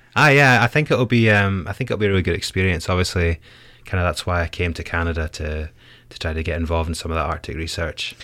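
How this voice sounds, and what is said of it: Scottish accent. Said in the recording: “has a bit of an accent there. Scotland?”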